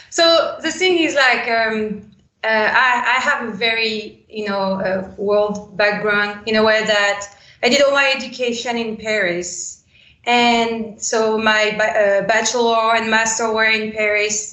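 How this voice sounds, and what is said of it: Slight French accent. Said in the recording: “I'm French, so that's why there would be a slight accent.”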